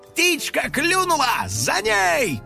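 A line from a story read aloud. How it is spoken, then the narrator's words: Shout. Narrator (Russian): крикнул Финик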